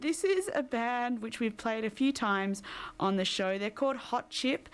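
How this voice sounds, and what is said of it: Thick Australian accent. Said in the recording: “There's some Australian accent for you, even though it's probably really thick right now.”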